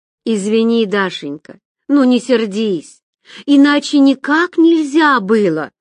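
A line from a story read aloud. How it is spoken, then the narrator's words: Exclamation. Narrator (Russian): воскликнула Соня Адашева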